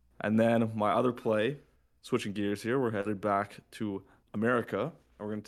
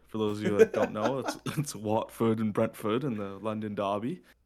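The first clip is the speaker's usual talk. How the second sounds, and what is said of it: Put-on English accent. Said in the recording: “You threw on an English accent.”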